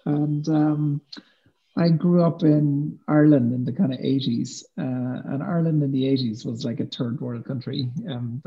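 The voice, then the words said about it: Irish accent. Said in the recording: “as you can probably tell from my accent, I'm Irish”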